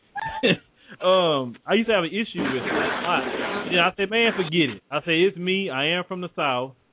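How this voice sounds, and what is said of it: Southern Texas country accent. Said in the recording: “your country accent... I am from Texas. So I do say y'all a lot”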